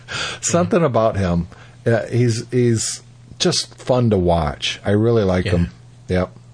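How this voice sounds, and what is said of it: Usual voice. Nothing is said of it.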